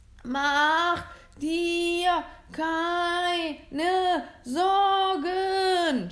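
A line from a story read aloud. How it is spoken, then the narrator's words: Shouting back. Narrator (German): schrie zurück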